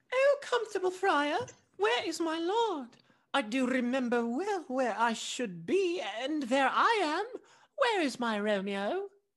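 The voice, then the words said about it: Exaggerated girly voice. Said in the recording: “begins to speak in his most girly voice”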